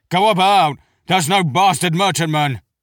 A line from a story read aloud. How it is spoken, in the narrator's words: Gent turned and barked the order to the helmsman